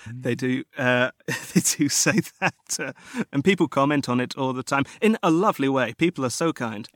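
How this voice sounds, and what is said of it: British accent. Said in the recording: “I'm from the UK ... yours really sticks out like kind of a bit of a sore thumb”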